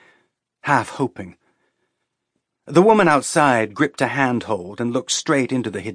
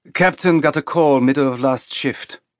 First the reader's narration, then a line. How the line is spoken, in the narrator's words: the woman said in a clipped accent that sounded European to Naomi